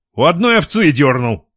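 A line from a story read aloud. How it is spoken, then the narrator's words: Grumbling under breath. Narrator (Russian): пробурчал себе под нос Гнездилов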